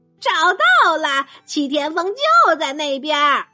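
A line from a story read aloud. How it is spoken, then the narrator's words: Shrill squeaky voice. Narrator (Chinese): 老鼠尖声说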